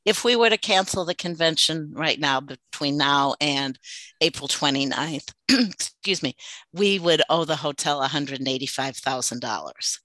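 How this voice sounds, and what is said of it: Hoarse, strained, fading voice. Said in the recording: “I'm kind of losing my voice”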